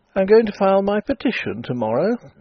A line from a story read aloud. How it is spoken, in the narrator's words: said he, and gave a short laugh